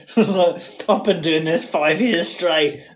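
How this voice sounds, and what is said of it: Put-on Cockney accent. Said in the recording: “he's got a Cockney accent, considering he's in Leeds ... master of accents”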